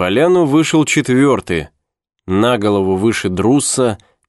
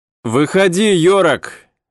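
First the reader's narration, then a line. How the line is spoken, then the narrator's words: Young man laughing. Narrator (Russian): рассмеялся молодой человек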